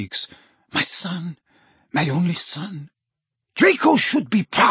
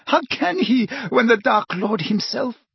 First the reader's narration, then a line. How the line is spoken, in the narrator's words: Bellatrix gasped